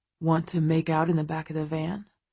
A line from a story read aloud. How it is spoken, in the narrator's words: Christian murmurs to me, a mischievous gleam in his eye